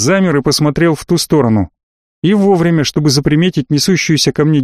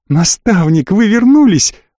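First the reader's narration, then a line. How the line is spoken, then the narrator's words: Joyful yelling. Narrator (Russian): радостно завопила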